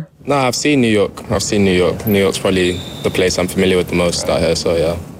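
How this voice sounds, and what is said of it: English accent. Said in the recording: “to hear his voice, the U.S., might not have been your first guess as to where he's from ... of course he has that English accent”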